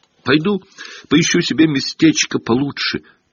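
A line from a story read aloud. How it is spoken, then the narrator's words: Squeaky. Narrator (Russian): пропищал ему в спину Колин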